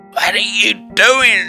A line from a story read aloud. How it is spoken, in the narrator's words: He moaned, obviously unwilling to meet his maker